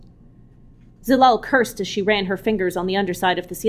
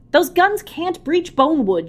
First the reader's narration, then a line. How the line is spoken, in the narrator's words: shouted back